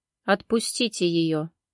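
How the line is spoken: Overly calm voice. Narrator (Russian): Его голос прозвучал спокойно, наверное, даже излишне спокойно

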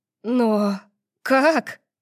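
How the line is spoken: Breathless. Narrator (Russian): выдохнула

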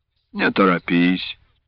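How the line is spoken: Sighing. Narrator (Russian): вздохнул казак

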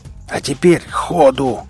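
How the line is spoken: Roar. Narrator (Russian): взревел наемник

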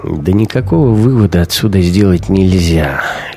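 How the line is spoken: Lazy, dismissive. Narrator (Russian): лениво отмахнулся Шибанов

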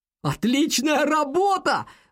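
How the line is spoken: Shout from behind. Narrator (Russian): выкрикнул Алекс из-за спины Хо

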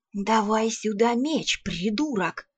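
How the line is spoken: Hissed. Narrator (Russian): прошипел советник

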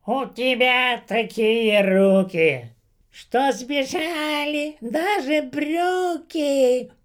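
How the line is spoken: Distant shrill voice. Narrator (Russian): донесся издалека визгливый голос

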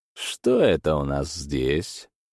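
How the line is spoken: Thoughtful drawl. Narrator (Russian): Задумчиво протянул он

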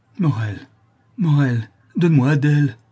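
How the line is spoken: Anguished mother's cry. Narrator (French): s'écria la malheureuse mère

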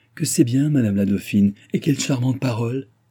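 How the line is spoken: Exclaimed. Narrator (French): s'écria André

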